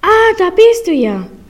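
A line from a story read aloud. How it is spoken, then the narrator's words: Called out. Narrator (German): rief die Bäuerin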